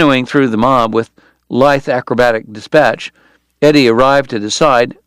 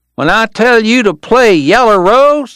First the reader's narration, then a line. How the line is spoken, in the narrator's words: the kid was yelling